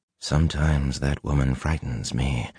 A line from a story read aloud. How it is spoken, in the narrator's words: Luce Theron murmured